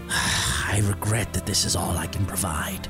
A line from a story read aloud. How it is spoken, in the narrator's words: the innkeeper said, his voice low